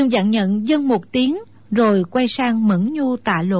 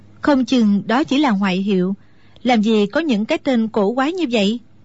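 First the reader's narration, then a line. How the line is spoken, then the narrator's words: Smiling. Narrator (Vietnamese): Mẫn Nhu chỉ mỉm cười rồi nói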